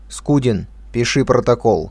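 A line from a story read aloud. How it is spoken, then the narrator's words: Commanding tone. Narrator (Russian): начальствующим тоном произнес Котов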